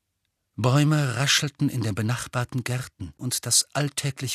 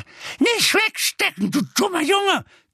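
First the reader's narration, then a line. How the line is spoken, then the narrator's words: Shrieking. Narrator (German): kreischte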